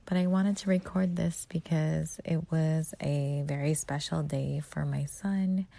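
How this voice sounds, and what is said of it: Low, quiet, tired voice. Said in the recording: “I am tired. So my voice is a little bit low because everyone is sleeping”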